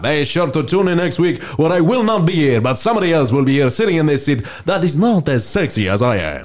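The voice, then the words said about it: Put-on accent, slipping partway. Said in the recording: “I feel like the accent got off. ... It was off halfway through, but you know, I did my best”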